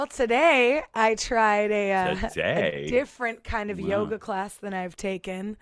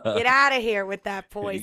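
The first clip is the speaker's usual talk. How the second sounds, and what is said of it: Put-on New York accent. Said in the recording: “you have to say it with a New York accent”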